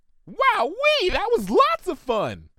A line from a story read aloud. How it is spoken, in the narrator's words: She chirped in a register much higher than Ponyville's resident weather manager was normally capable of